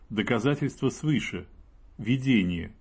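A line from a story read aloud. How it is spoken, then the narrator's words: Calm, serious reply. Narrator (Russian): ответила уже спокойно, серьезно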